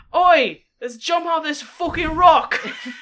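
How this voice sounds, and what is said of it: Put-on British accent. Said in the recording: “It was a British accent, but whatever. Yeah, I can't do an Irish one very well.”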